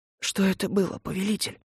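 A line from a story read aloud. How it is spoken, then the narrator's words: Whispered question. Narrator (Russian): шепотом поинтересовался Ленц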